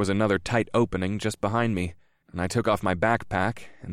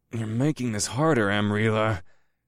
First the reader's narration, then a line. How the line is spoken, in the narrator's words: I groaned